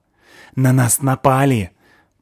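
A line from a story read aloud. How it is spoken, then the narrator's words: Boy's hissing whisper. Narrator (Russian): прошипел мальчик свистящим шепотом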